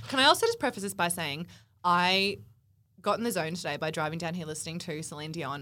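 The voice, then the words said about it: Husky, partly lost voice. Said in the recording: “My voice is actually a little bit husky. I think I've lost my voice ... so I'm a bit husky.”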